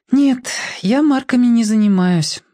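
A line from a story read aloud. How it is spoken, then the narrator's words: Sighing. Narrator (Russian): вздохнула она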